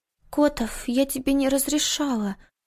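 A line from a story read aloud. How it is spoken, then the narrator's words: Strangled breathless whisper. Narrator (Russian): Сдавленно прошептала, едва не задыхаясь от его внезапной нежности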